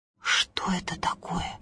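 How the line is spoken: Whispering. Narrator (Russian): зашептали колосья

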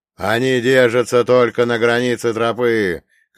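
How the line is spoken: Shouting. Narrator (Russian): крикнул Ваня

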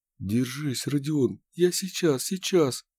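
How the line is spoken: Muttering. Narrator (Russian): бормотал Дынников

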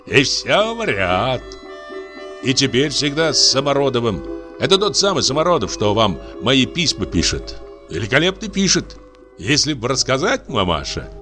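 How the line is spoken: Cheerful. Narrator (Russian): весело продолжал Анисим

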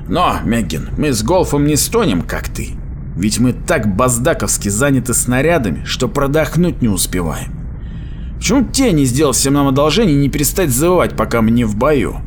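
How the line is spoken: Chuckling. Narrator (Russian): Голф хохотнул

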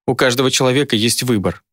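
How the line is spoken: Contemptuous witch's snort. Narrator (Russian): презрительно фыркнула ведьма

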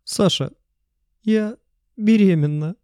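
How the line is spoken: Crushed, devastated voice. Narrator (Russian): убитым голосом сказала Кристина

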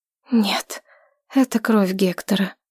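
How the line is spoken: Quiet. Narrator (Russian): тихо сказала я

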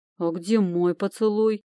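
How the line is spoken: Grumbling demon. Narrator (Russian): проворчал демон

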